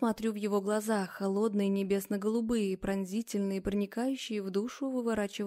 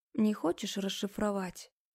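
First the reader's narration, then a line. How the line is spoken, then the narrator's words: Very quiet. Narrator (Russian): Произношу тихо-тихо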